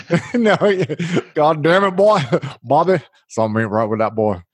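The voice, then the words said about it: King of the Hill impression. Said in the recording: “That's my King of the Hill impersonation there.”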